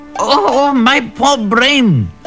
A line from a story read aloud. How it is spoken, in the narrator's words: squealed the jackal